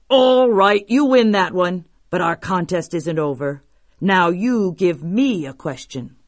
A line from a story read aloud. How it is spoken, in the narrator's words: he roared